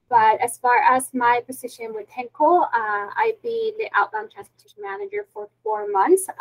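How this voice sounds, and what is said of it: Heavy non-native English accent. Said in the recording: “I still have a heavy accent”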